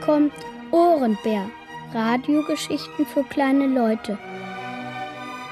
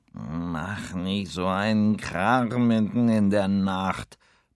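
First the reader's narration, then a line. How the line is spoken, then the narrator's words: Sleepy grumbling. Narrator (German): brummt der Cowboyhut verschlafen vom Nachttisch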